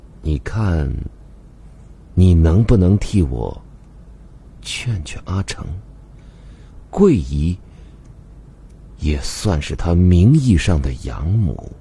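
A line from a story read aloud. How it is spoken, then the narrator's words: Deliberately hushed. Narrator (Chinese): 刻意压低了声音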